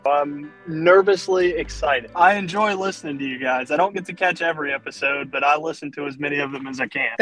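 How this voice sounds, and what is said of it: Southern US accent. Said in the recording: “You sound very Southern.”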